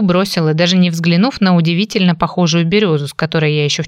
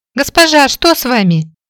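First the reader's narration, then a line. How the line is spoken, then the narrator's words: Worried exclamation. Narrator (Russian): обеспокоенно воскликнула Молли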